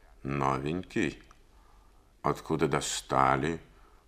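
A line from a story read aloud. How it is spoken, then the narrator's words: Guttural, through gritted teeth. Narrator (Russian): процедила гортанным голосом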